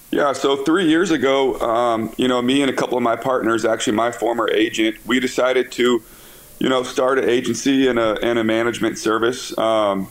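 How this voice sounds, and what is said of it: Tired, run-down voice. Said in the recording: “my voice might be a little messed up. I've been on the phone, I feel like, for 2 days straight ... so my voice is a little run down.”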